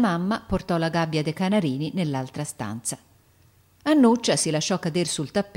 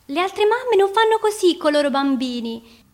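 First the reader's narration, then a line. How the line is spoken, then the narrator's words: Shouting. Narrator (Italian): gridava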